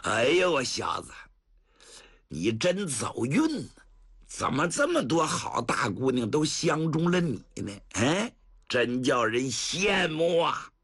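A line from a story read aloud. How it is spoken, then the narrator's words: Hearty laughter. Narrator (Chinese): 程咬金 捧腹大笑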